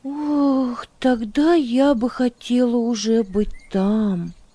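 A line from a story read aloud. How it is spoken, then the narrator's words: Girl sighing wistfully. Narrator (Russian): вздохнула девочка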